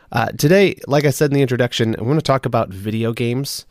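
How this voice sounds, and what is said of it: Slightly scratchy voice. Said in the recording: “my voice is a little scratchy. I'm just coming off being sick”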